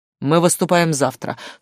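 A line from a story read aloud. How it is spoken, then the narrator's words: Dry correction. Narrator (Russian): сухо поправил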